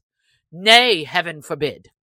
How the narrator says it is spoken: cried the sheriff hastily

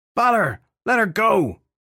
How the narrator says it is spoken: Filthy Henry shouted

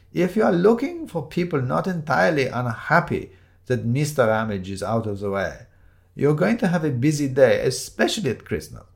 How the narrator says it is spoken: said quite cheerfully

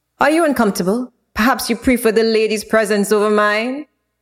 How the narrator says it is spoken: Vlad's chuckle held a slight jeer in it

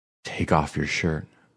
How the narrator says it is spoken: whispered

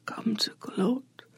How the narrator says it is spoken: Xochitl asks, or tries to, because it won't come out as more than a whisper

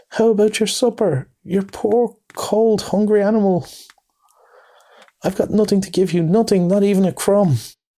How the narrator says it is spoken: moaned

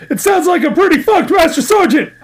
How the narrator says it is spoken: I yelled

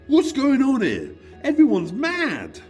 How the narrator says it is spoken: David screaming

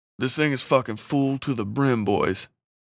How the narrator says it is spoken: DeMarcus said in a low voice

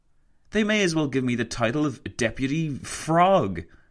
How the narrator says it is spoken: he exclaimed to Roosevelt

